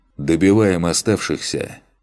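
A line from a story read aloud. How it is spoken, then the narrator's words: Tired command. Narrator (Russian): Устало командую я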